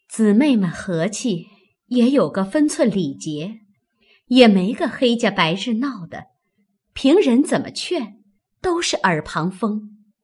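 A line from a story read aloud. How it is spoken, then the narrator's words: Sighing. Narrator (Chinese): 袭人叹道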